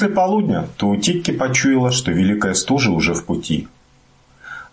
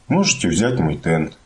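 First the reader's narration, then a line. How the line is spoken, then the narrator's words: Quiet, thoughtful. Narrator (Russian): Мумитроль тихо сказал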